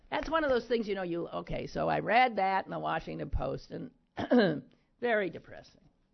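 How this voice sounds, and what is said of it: Strained, failing hoarse voice. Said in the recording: “I'm losing my voice, aren't I? It sounds awful”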